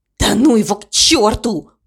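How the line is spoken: Hissed. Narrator (Russian): прошипел он

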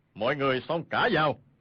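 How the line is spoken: Powerful loud shout. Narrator (Vietnamese): Y bèn đề khí quát lớn

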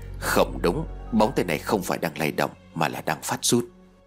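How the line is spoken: Quiet voice. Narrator (Vietnamese): Chú Trung Niên nhỏ giọng nói

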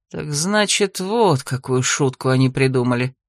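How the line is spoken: Relieved exhale. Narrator (Russian): С облегчением выдохнул Иридас

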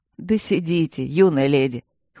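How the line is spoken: Snorting. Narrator (Russian): хмыкнул

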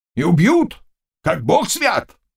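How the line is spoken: Exclamation. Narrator (Russian): воскликнул Заглоба

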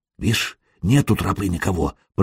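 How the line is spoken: Whisper. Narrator (Russian): прошептал Тороп

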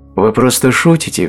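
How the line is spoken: Laughing. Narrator (Russian): все еще смеясь сказала Джейн

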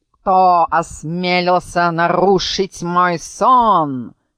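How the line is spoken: Shouted with a burr. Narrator (Russian): картавя крикнул он

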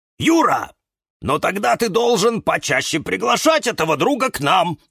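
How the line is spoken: Exclamation. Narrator (Russian): воскликнул кактус Кирилл

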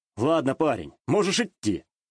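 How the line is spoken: Amused snort. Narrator (Russian): хмыкнул я

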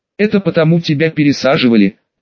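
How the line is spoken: Explaining through laughter. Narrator (Russian): сквозь смех пояснил Салим

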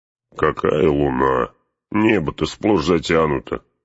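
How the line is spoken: Grumbling. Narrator (Russian): проворчал Гимли

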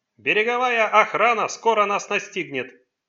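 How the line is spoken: Shouting over roaring wind. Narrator (Russian): прокричал призрак, перекрывая рев неистового ветра

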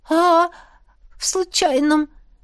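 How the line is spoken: Sobbing. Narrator (Russian): всхлипнула я

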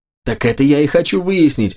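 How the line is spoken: Laughing loudly. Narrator (Russian): расхохотался Макс

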